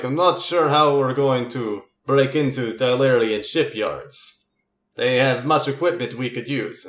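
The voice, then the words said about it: Character voice with thick accent. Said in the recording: “a fellow with a very thick accent”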